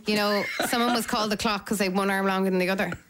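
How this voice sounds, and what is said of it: Put-on Dublin accent. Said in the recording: “Dublin accent came out there. ... the Dublin accent's coming out.”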